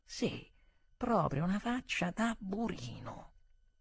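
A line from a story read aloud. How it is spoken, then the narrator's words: Convinced murmur, slightly afraid. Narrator (Italian): sebbene avessi un po' di paura, non potei fare a meno di mormorare di nuovo, con convinzione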